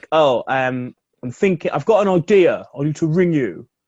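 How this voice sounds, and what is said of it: Imitates another person's voice. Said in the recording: “my Damo impression, apparently”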